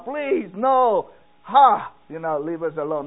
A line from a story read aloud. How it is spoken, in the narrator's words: he put his hand up and yell out